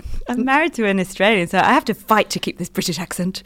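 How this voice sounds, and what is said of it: Strong British accent. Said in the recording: “just long enough to keep the amazing British accent ... You've got it strong though”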